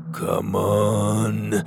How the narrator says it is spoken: Maximus grunted

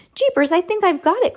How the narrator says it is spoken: cried Judy

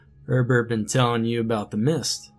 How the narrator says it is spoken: he asked, half chuckling

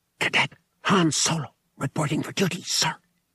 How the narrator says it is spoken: he whispered, trying it on for size

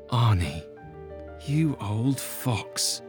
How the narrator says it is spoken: he muttered

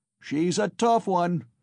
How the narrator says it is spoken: was shouted in the crowd

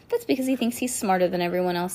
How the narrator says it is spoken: said Lucy

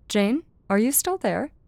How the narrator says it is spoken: Jane asked

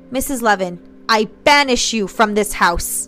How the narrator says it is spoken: Michelle shouted into the room

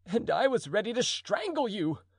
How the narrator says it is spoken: cried the duke

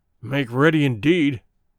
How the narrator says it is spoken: growled Good

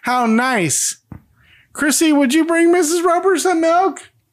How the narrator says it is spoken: Janet laughs like a crazy person and then shouts

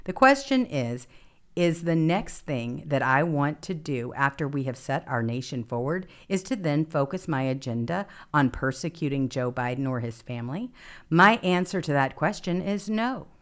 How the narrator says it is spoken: Ramaswamy said

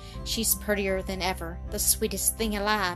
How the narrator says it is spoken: he murmured half aloud

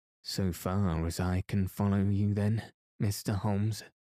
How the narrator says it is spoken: said Sir Henry

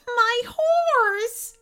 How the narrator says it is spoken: she cried

